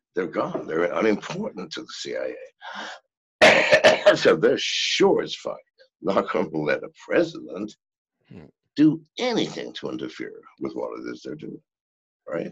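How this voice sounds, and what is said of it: Ragged, worn-out voice. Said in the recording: “my voice is really raggy now”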